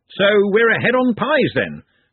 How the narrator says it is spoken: said Ridcully cheerfully

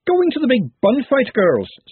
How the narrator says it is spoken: said Verity cheerfully

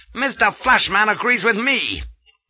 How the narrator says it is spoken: barks Gardner

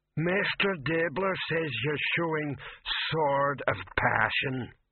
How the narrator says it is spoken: rumbled the voice

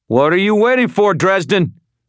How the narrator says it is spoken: Ramirez shouted

